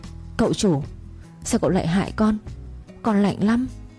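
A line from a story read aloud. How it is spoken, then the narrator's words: Icy chilling voice. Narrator (Vietnamese): thằng Quậy giọng nói lạnh buốt khiến đối phương run rẩy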